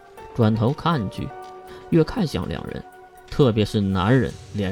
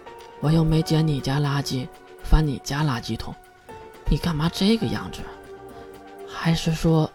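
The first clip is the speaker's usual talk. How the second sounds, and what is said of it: Quiet, muttered cursing. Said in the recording (Chinese): “小声的咒骂了一句”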